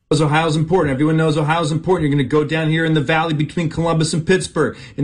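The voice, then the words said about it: Imitates a CNN news presenter. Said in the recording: “doing his impression of CNN”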